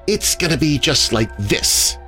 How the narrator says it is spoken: snarled

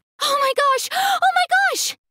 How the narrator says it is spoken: screamed

